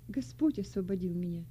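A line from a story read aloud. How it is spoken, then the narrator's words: Calm. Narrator (Russian): спокойно ответила молодая христианка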